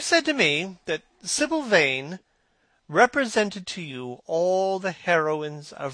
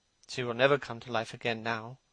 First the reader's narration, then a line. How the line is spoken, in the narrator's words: murmured the lad